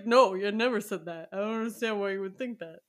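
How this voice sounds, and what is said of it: Imitates another person's voice, put-on accent. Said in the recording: “based on that accent, who you're impersonating there ... one of my terrible impersonations”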